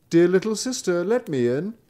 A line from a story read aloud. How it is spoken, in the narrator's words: called out